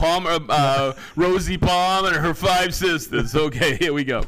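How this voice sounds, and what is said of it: Usual voice. Nothing is said of it.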